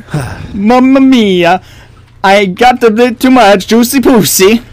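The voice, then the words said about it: Italian accent. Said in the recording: “Italian accent”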